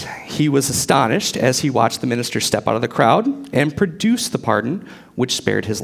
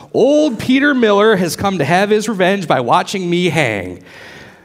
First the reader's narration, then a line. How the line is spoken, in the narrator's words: the traitor exclaimed